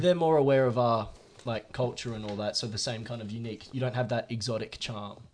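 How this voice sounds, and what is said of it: Australian accent. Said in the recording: “as an Australian guy ... How do you fare with an Australian accent there?”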